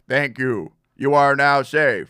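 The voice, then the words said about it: Robotic RoboCop-style voice. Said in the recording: “I just kept talking in this voice ... my impression of the RoboCop ... I just kept doing that voice”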